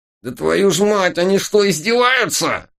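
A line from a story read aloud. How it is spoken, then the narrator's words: Near howl. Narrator (Russian): Чуть не взвыл таракан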